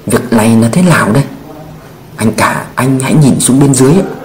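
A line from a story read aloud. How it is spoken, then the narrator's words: Lowered voice. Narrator (Vietnamese): Cao Đông hạ giọng nói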